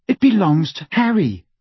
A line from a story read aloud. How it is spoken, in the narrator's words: said Hermione hotly